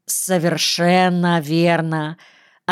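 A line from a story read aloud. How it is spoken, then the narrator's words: Low voice, slight accent. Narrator (Russian): ответил Багир низким голосом, с едва заметным акцентом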